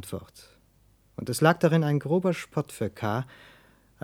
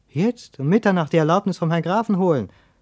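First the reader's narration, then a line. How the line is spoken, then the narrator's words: Young man calling out. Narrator (German): rief der junge Mann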